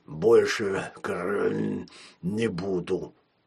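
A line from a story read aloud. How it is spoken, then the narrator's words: Deep bass voice. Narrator (Russian): пробасил Шпрот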